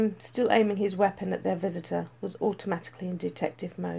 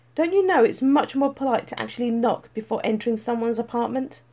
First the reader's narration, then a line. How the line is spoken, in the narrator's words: he said curtly